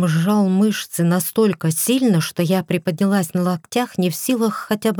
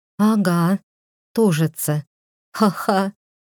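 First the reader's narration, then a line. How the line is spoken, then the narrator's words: Pained, broken laugh. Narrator (Russian): хотела рассмеяться я, но живот скрутило с такой болью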